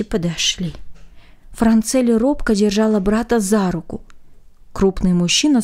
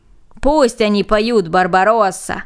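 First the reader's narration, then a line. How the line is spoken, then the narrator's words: Group shouting. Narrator (Russian): закричали остальные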